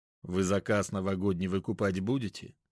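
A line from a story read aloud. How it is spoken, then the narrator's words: Bored question. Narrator (Russian): Снова скучным тоном спросил Вячеслав Климович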